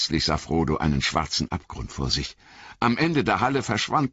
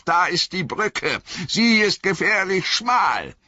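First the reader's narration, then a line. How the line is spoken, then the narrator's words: Called out. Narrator (German): rief Gandalf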